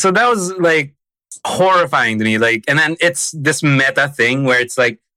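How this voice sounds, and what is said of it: Usual voice. Nothing is said of it.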